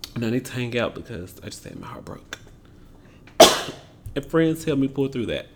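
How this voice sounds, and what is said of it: Choked-up, emotional voice. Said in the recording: “I'm getting choked up thinking about it. That's what I'm actually doing.”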